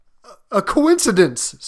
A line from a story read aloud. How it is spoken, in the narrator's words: stammered the old man